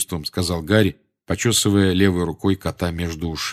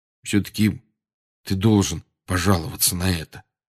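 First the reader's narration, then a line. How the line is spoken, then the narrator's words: Quiet. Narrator (Russian): тихо сказал Рон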